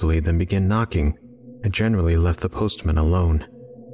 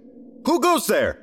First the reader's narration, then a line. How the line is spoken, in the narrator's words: I yelled